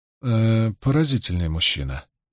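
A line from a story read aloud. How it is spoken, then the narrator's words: Quiet. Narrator (Russian): негромко произнесла Магеддин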